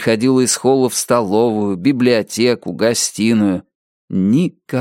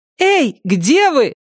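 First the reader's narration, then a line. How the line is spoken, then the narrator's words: Shouting. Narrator (Russian): кричала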